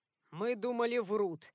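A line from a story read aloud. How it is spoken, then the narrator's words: Grim man. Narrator (Russian): мрачно заявил мужчина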